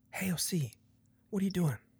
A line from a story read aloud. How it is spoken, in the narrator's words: Whispering, he reiterates